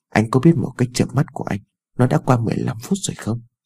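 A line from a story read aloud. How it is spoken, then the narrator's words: Softly sulky. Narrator (Vietnamese): Ái Dương khẽ dỗi hờn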